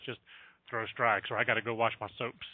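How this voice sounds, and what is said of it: Imitates another person's voice. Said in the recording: “my my Wayne Graham impersonation”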